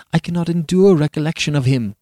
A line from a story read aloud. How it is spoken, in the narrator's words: cried the poor Countess slavishly